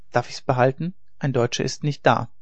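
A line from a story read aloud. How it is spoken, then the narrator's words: Calm terse boy. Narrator (German): Der Junge, der von wenig Worten war, … ruhig … sagte nur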